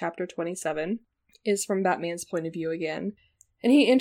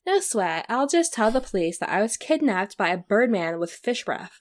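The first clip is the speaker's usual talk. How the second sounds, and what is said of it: Valley Girl character voice. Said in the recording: “my Valley Girl voice ... it comes way too naturally to me”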